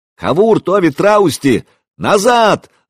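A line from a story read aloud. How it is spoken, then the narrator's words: Yelling, losing control. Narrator (Russian): заорал я, уже понимая, что теряю контроль над ситуацией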